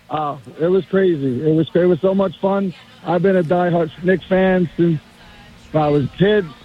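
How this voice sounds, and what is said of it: Strained, hoarse voice. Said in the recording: “my voice is a little messed up from screaming”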